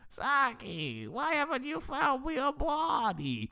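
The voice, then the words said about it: High-pitched cartoon character voice. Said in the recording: “Krang impression because it's just high pitched”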